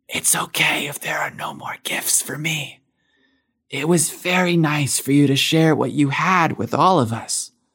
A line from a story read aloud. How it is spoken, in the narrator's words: She bashfully whispered in his ear